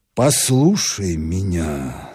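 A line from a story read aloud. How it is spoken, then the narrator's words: Very gentle. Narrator (Russian): сказал он так мягко, как только мог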